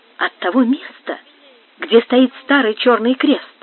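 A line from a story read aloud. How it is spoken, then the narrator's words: Quiet answer. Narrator (Russian): тихонько отвечала Донна Бланка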